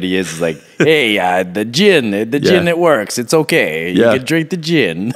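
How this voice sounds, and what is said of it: Poor put-on French accent. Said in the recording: “That was a terrible French accent impersonation ... It was more like Borat all of a sudden. ... That's not how he sounds.”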